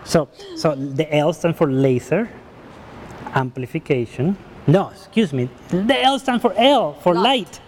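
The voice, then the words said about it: Foreign accent in English. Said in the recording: “You know my accent, my English language, but you know I'm foreigners”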